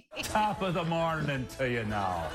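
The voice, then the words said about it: Fake bad Irish accent. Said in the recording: “fake bad Irish accents”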